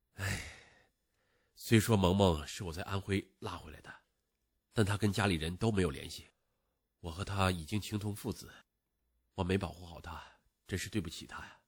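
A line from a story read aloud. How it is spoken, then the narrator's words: Sighing. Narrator (Chinese): 萧鹦鹉叹口气说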